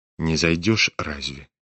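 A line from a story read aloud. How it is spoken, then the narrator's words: Quiet question. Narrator (Russian): тихо спросил его князь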